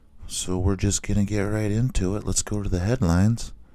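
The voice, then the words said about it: Rough, worn-out voice. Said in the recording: “if my voice is a little shot, that's why”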